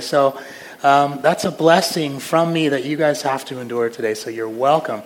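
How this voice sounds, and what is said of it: Impaired, strained speaking voice. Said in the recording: “As you can hear, my voice is not cooperating today ... I'm not going to have the same gravitas that I normally have”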